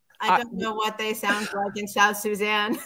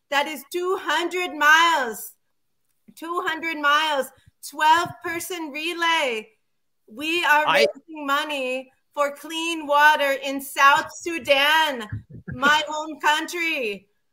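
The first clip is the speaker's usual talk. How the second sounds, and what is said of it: Put-on foreign accent. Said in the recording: “I don't think you should be doing that accent.”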